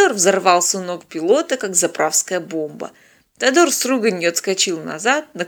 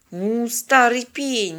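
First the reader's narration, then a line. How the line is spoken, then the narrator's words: Angry hiss. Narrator (Russian): сердито прошипела девушка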